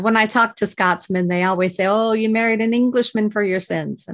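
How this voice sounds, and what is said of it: Noticeable regional accent. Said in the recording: “you've retained your accent, which is amazing”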